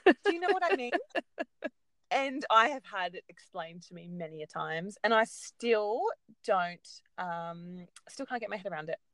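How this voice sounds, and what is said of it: Australian accent. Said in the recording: “I have such an Australian accent”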